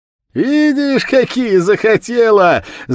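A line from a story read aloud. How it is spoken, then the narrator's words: Crowd of girls shouting, laughing. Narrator (Russian): закричала со смехом девичья толпа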